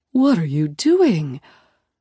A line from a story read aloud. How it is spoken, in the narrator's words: Mom gasps